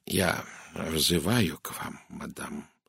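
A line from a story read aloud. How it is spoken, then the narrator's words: Dry, curt. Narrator (Russian): сухо промолвил он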